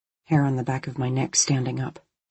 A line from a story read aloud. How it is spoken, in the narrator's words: he murmured